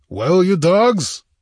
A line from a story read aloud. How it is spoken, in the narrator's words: he roared